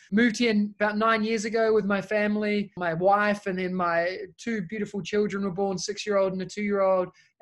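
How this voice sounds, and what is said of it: Thick New Zealand accent. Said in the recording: “As you can tell by my accent, I'm originally from New Zealand. It's a bit thick and long sometimes”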